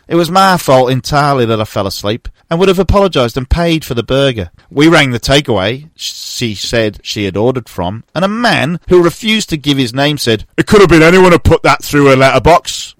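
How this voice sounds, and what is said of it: Mansfield English accent. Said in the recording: “captivated by the accent. it was good this week. ... Quite good on Mansfield accent. ... Mansfield accent.”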